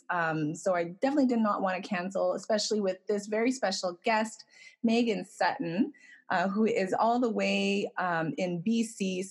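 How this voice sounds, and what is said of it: Hoarse, laryngitic voice. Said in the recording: “Please forgive my voice. I have a bit of a laryngitis ... my voice is horrible”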